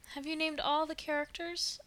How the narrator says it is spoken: asked Diana wistfully

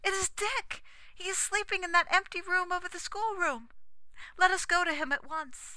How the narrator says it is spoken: I cried

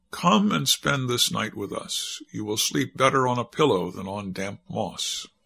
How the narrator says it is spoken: The maiden answered kindly

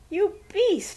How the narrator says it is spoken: squealed Rosie

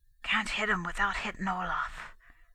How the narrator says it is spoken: whispered

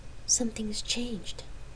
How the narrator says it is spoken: Gabrielle breathed

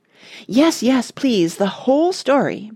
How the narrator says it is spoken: begged Randy, giving an involuntary bounce on the hard chair

